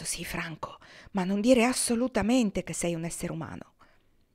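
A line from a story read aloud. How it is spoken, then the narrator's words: Hurried whisper. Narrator (Italian): Morten ebbe appena il tempo di sussurrare al ragazzo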